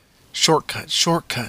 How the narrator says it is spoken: muttered

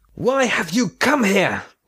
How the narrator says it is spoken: shouted Bodan

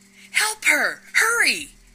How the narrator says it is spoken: scream

